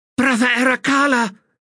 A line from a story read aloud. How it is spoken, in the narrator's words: cried